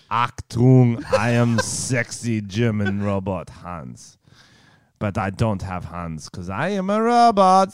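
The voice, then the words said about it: Put-on German robot accent. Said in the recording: “a sexy German robot ... How was my accent?”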